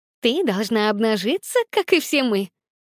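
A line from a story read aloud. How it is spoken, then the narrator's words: Laughing, noisy crowd. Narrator (Russian): Стол засмеялся и зашумел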